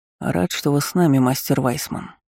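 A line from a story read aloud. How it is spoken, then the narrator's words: Quiet greeting. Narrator (Russian): негромко поприветствовал Винсент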